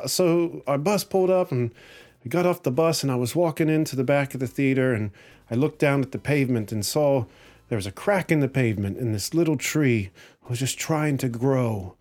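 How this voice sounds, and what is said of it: Put-on sing-songy Irish accent. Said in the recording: “Excuse my Irish accent. It's going to be horrible. ... you get all sing-songy when you talk”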